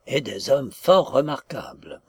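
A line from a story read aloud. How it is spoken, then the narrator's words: Confidential tone. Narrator (French): poursuivit-il d'un ton confidentiel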